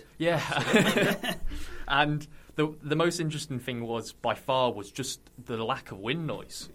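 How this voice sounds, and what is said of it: Somerset English accent. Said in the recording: “as you can hear from my accent, I'm not from anywhere near Yorkshire. I'm originally from Somerset.”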